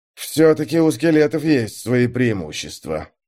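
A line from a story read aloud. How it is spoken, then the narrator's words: Mutter. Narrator (Russian): пробормотал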